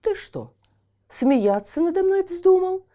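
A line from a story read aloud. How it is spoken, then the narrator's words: Angry exclamation. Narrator (Russian): воскликнул Ясок, покраснев от гнева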